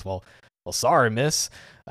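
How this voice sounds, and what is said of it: Mild Texas drawl. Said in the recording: “make Smith's dub VA do a Texas draw ... it's not like overpowering, but it's definitely noticeable ... it's not full like, well, howdy partner”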